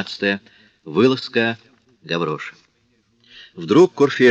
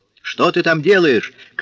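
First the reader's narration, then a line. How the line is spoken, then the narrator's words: Shout. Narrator (Russian): крикнул Курфейрак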